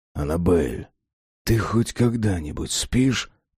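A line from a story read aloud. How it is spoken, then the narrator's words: Whispered. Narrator (Russian): прошептал он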